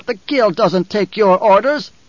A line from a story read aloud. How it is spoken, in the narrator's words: barked